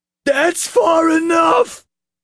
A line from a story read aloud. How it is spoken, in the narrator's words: Officer Mack squealed